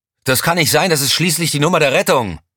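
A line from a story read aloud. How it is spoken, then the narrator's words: Roar. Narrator (German): brüllte Elm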